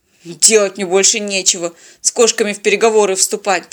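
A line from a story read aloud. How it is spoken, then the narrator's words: Grumbling. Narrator (Russian): проворчал капитан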